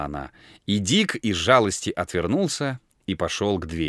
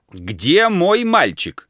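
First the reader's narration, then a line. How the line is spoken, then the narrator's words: Shouting. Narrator (Russian): кричал он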